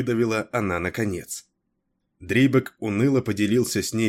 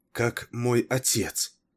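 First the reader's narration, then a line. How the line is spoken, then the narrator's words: Barely audible question, female. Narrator (Russian): еле слышно спросила она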